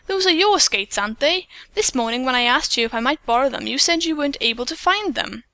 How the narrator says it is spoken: Peggy exclaimed in astonishment

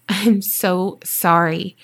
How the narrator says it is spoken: I said

